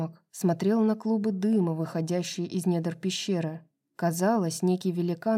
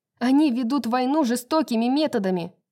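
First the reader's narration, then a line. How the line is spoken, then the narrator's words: Shout. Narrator (Russian): крикнула Брайс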